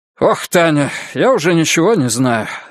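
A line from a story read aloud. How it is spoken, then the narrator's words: Irritated. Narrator (Russian): раздраженно сказал Ковальчук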